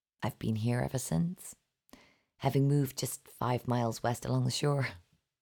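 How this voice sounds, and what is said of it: Foreign-sounding accent. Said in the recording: “My accent makes me a permanent foreigner”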